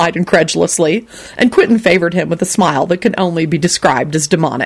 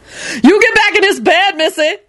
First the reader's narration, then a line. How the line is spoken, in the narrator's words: Lucretia hollered from down the hall